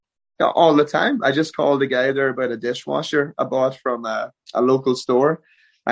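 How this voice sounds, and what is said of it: Irish accent. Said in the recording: “a lot of people would want to hear me say Irish words ... You can say a lot more things with an Irish accent than you could if you didn't have one.”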